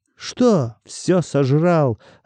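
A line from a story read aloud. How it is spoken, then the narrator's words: Bark. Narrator (Russian): рявкнул Артем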